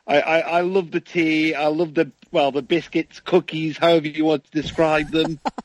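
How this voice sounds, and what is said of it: Posh British accent. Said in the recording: “the really posh accent. People say I've got a posh accent, but I don't think I do.”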